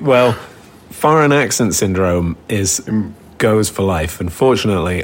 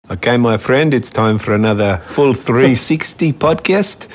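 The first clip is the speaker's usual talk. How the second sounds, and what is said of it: Put-on South African accent, slightly Russian. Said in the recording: “this South African accent ... what was that accent? ... it was around South Africa, ... like if South Africa drove through Moscow on the way. ... Was it a little Russian? ... I thought we were going for like Bond villain, but that was so good. ... I was just doing a very skillful mimic there.”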